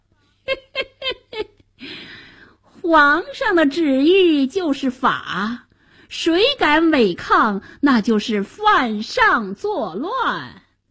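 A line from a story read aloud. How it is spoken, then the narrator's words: Sinister laughing. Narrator (Chinese): 白脸宰相奸笑着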